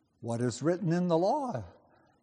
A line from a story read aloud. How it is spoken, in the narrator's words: he replied